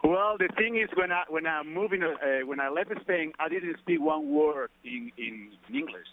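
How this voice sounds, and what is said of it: Spanish accent with Australian tinge. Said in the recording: “your Spanish or Australian accent ... You can catch some of my accent from there”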